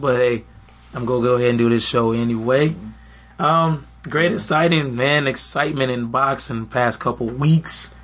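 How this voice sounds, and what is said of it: Slightly hoarse voice. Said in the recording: “Excuse my voice. I'm a little hoarse... his throat needs some mending”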